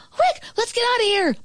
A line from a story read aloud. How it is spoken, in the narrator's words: my brother shouted